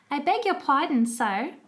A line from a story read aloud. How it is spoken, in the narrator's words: she said